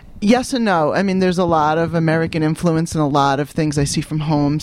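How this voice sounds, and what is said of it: Classic New York accent. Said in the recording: “your voice is traditional New York, isn't it? In fact, it's almost Manhattan. ... I do have that talk and coffee kind of accent. ... considered classic New York”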